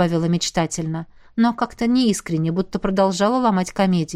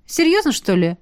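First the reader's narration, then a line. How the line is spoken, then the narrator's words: Exclaimed with forced cheer. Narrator (Russian): Молли на секунду растерялась, а потом махнула рукой и нарочито бодро воскликнула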